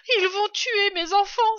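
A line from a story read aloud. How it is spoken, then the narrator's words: Exclamation. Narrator (French): s'écria Dame Renard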